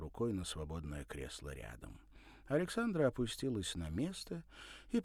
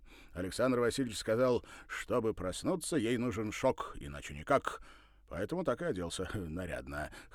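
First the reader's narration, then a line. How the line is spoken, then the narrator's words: Smirking snort. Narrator (Russian): хмыкнул он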